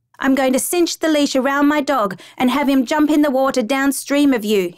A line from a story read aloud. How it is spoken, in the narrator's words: he yells to Samara